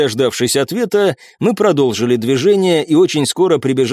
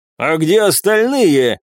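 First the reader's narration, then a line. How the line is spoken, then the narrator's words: Angry bark. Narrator (Russian): зло рявкнул Крапивин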